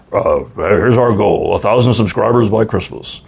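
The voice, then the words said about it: Imitates a radio DJ's beautiful voice. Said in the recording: “I'm trying to do his beautiful voice, but I don't think I can do it.”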